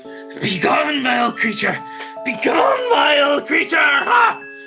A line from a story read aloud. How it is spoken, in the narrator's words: Just starts screaming out